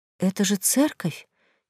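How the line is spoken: Quiet question. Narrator (Russian): тихо спросила

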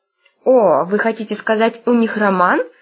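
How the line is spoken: Purring. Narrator (Russian): промурлыкала Грозиана

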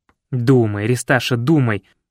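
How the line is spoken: Displeased muttering to himself. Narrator (Russian): Недовольным тоном посоветовал он сам себе

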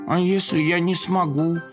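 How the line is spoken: Timid small kitten voice. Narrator (Russian): робко спросил котенок

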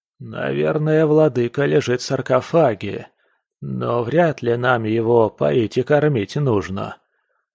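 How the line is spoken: Plain. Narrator (Russian): ответил Самуил

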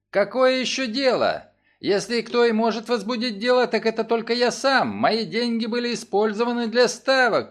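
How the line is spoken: Shouting. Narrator (Russian): кричал Фремонт

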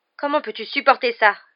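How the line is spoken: Abrupt tone. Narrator (French): dit-il d'un ton abrupt

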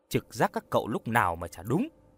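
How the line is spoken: Smiling. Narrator (Vietnamese): Hoa mỉm cười

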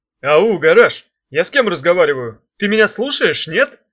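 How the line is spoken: Yelling. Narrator (Russian): Завопил Чемоданов

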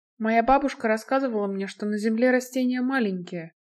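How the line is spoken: Quiet. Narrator (Russian): тихо произнесла Крита

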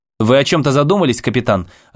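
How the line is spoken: Sharp question. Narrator (Russian): резко спросил Холмс

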